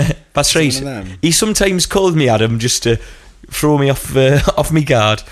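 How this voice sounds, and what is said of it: Usual voice. Nothing is said of it.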